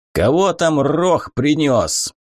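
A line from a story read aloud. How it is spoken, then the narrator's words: Rough question from inside. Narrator (Russian): грубо спросили изнутри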